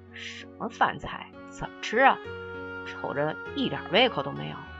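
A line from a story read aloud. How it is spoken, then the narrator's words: Grumbling mutter. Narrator (Chinese): 大格格看着眼前的快餐，嘟囔着说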